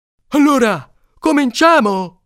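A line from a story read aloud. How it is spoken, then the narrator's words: Shouted. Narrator (Italian): ha gridato Alcide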